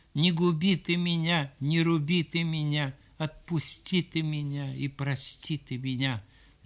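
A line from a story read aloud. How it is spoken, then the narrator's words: Cowardly trembling whimpering babble. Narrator (Russian): Брундуляк трусливыми, задрожал, залопотал и захныкал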